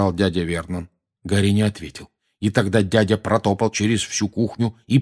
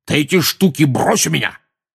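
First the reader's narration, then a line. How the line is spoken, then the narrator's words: Barked. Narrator (Russian): рявкнул дядя Вернон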